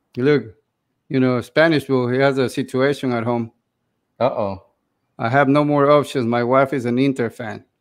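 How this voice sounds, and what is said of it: Noticeable non-native English accent. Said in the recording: “my accent is not the best ... Some people are saying you sound sexy”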